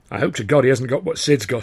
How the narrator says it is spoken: said

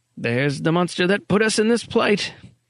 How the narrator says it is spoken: Erickson grunted

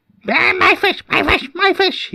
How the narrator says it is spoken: said in a watery squeal

